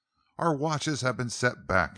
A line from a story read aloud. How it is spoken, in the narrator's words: he exclaimed